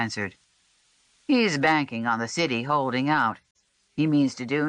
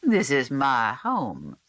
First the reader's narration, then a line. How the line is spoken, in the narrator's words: he answered smoothly